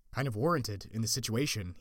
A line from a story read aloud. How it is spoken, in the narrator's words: said